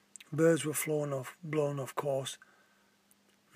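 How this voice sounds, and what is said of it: Usual voice. Nothing is said of it.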